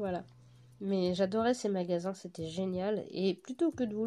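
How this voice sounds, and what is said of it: Usual voice. Nothing is said of it.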